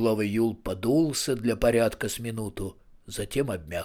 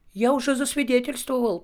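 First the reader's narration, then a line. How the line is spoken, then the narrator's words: Squeaky voice from behind. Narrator (Russian): пропищал из-за самовара Етуркин Жансерхив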